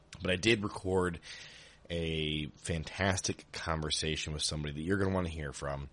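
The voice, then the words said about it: Strained, sick-sounding voice. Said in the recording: “I just can't even talk right now ... my voice just is not going to hold up”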